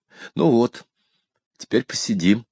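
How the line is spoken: Trembling female voice. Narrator (Russian): дрогнувшим голосом сказала спутница

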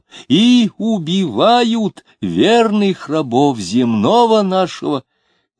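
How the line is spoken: Shouting. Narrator (Russian): кричал

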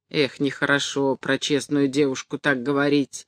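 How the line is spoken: Displeased. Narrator (Russian): заметил недовольным голосом Доможиров

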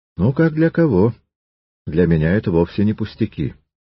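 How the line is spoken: Calm objection. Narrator (Russian): Триродов спокойно возразил

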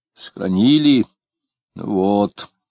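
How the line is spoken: Vague grumble. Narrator (Russian): неопределенно проворчала она

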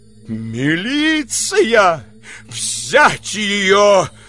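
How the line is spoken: Terrible shout. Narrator (Russian): страшным голосом вскричала супруга Аркадия Аполлоновича

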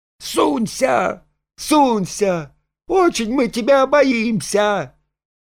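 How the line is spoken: Ringing shout. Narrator (Russian): Машка звонко закричала

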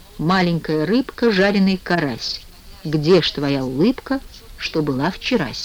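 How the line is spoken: Softly sung. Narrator (Russian): совсем уж неожиданно пропел ей вполголоса

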